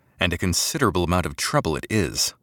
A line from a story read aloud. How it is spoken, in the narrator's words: Sullivan murmured